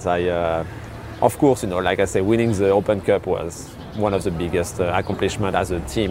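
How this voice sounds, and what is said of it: Non-native English accent. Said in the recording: “I'm sorry about my English, guys, right now, but it's the best I can do. My accent will still be here”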